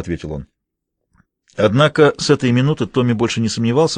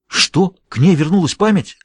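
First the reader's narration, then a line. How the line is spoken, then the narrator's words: Excited exclamation. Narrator (Russian): взволнованно воскликнул Джулиус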